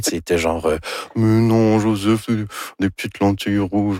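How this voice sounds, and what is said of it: Imitates another person's voice. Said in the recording (French): “Ça, c'est mon imitation de Anne Dorval. ... C'est très réussi.”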